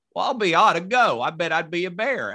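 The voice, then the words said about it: Thick Southern accent impersonation. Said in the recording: “I just heard you do a Southern accent. ... Like that was thick. ... that minuscule little impersonation you just did”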